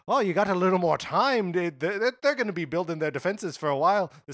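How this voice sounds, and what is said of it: Poor imitation of game character's accent. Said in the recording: “This is the worst Mimir accent I could be doing.”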